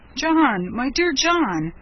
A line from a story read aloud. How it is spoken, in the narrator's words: said the surgeon with convulsive sobs